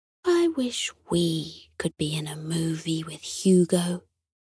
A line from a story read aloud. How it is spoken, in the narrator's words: Sunny sighed wistfully and whispered to Hector